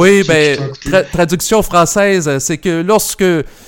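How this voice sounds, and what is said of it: Usual voice. Nothing is said of it.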